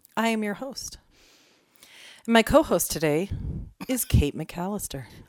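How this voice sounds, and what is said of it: Dramatic pausing NPR radio voice. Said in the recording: “Why are you pausing? ... I'm trying to be dramatic. ... practice my ... NPR voice”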